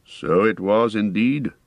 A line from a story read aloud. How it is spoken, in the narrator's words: answered Elrond gravely